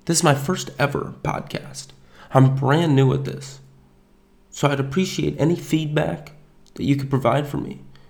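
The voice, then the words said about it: Nasal, raspy voice. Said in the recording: “my nasally, raspy Armenian voice”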